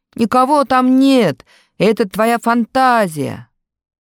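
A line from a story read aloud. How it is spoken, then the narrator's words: Deliberately loud. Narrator (Russian): Старший сам нарочно громко сказал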